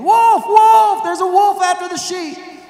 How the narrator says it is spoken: This time he hollers again

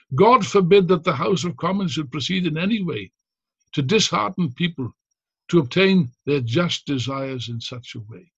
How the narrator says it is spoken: Pym himself was reported to have said, to have exclaimed

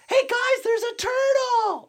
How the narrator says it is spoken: Someone yells

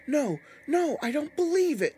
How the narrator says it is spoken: Lindy shrieked, seeing the dummy move

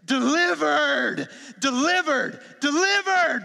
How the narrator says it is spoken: myriads of angels are shouting

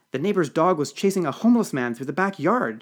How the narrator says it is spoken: she gasped

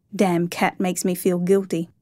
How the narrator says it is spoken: he chuckled

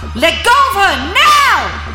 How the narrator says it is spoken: He yells as loud as possible

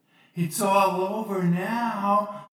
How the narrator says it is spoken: shouted Marco from down the corridor

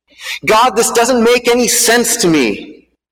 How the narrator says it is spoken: yelled at the sky

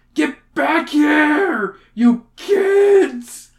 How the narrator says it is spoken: He screams

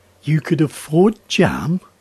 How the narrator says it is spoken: Along with another peal of laughter

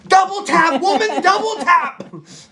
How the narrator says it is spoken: I'm starting to yell

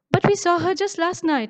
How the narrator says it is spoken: Maisha exclaims

